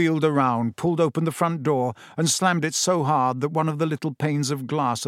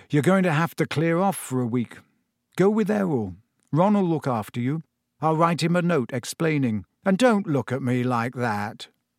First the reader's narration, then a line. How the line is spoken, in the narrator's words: he said gloomily